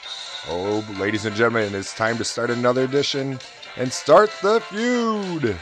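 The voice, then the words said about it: Game show announcer voice. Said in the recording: “doing that game show voice.”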